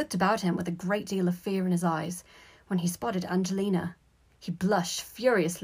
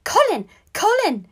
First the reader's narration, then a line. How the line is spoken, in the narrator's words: he squeaked